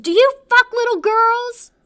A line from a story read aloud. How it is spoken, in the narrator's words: Sadie screams